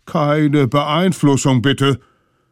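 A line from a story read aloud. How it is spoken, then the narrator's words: Mammoth thinking aloud. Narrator (German): Das Mammut fing an, laut nachzudenken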